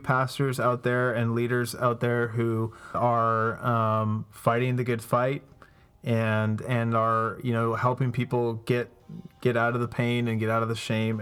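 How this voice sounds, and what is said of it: Canadian accent. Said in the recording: “you have a Canadian accent”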